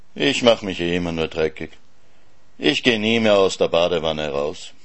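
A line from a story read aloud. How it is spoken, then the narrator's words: Sad. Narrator (German): sagte traurig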